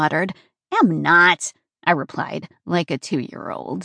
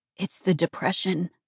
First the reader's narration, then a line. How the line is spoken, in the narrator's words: Nonna whispered to my mama